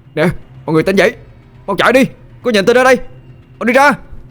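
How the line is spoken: Shouting. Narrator (Vietnamese): Tôi hét lên

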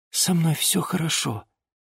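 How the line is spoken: Quiet repeated words. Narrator (Russian): несколько раз тихо повторила Диана, но ее никто не слышал

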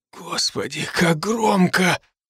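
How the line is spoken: Pained whisper. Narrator (Russian): он шептал и пригибался к полу от боли

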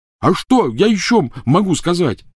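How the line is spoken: Yelling. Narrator (Russian): заорал Рон

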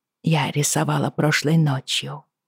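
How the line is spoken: Quiet speech. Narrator (Russian): негромко сказала Бриана

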